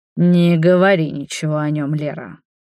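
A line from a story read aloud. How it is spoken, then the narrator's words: Growl. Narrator (Russian): прорычал Паша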